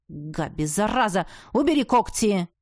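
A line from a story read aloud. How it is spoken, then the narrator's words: Barked shout. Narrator (Russian): рявкнул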